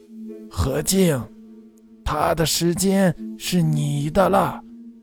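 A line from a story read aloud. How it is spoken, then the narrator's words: Old woman, soft voice. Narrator (Chinese): 老太婆 轻声说道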